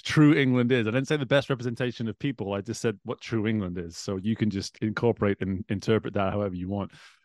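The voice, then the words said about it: Northwest English accent. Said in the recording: “position the accent for everybody. Northwest of England, born and raised, a small town called Chester, just outside Liverpool, Manchester in the northwest”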